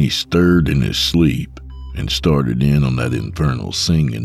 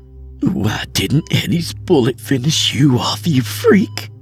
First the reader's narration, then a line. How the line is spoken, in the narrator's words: she screamed through her choked sobs